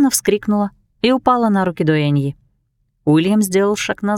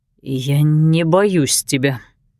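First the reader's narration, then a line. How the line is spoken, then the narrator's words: Trembling voice. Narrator (Russian): дрожащим голосом сказал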